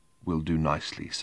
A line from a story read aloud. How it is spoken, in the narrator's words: said the barman in a barely audible whisper from between dry lips